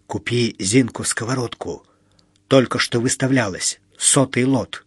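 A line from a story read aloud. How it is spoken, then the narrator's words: Man whispering. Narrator (Russian): мужик шепнул Мите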